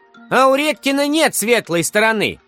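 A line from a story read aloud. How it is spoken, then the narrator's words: Shouted from the classroom. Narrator (Russian): выкрикнули из класса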